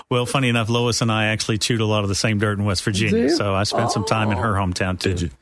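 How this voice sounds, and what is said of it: Appalachian American accent. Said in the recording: “my Appalachian American accent”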